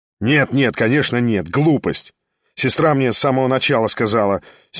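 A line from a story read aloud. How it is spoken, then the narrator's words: Impatient and sharp. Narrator (Russian): с нетерпением и резко проговорил Шатов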